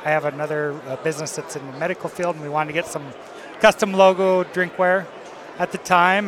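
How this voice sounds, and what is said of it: South Dakota accent. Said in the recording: “If you can't tell from the accent ... is that a Canadian or Minnesotan, Wisconsin ... Canada Light ... the South Dakota accent”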